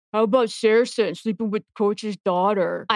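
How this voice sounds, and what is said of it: Imitates another person's voice. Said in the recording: “I'm going to do my best impression.”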